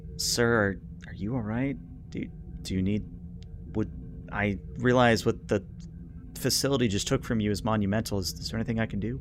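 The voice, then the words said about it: Quiet stage whisper. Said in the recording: “in a quiet whisper, so that Vectan and Esrol aren't aware, but everybody in the audience is aware. Stage whisper.”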